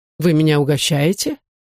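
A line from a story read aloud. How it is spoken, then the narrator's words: Insistent. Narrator (Russian): повторил настойчиво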